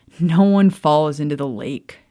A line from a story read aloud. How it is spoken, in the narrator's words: Charles laughed